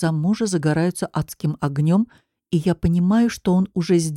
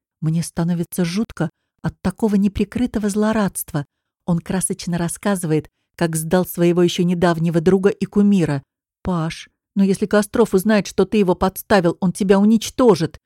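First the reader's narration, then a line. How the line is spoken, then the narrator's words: Frightened. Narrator (Russian): Испуганно говорю я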